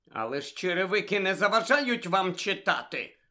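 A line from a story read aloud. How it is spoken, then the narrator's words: Grumbled. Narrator (Ukrainian): буркнула білява відьма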